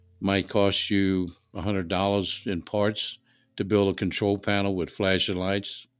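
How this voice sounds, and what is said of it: Regional American accent, Boston-like. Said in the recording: “where'd you get the Boston accent? ... it's not really Boston. It is more like ... New Orleans, downtown New Orleans accent”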